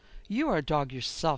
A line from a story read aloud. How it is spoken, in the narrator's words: she exclaimed